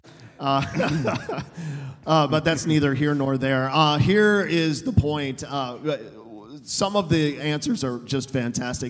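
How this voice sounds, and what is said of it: Strained, worn-out voice. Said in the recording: “Sorry about my voice. I was yelling at a really bad Iowa Hawkeye football team last night.”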